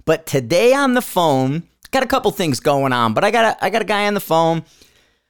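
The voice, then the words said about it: Strained, worn-out voice. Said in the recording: “My voice is a little shot today, so I can't really get that high note that I usually do”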